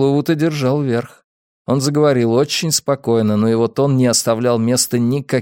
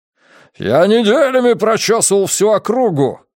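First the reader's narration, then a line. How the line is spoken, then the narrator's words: Barking. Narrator (Russian): рявкнул он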